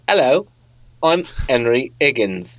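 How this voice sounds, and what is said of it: Bad accent dropping H's. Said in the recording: “they don't pronounce their H's ... The worst accent ever”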